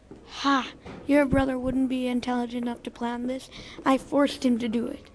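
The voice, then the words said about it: Raspy character voice. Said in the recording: “It was a raspy voice”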